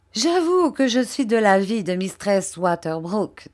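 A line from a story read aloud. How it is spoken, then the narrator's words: Plain. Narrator (French): dit M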